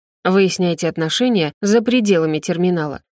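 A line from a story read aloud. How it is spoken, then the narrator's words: Guard's stern warning. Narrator (Russian): грозно предупреждает охранник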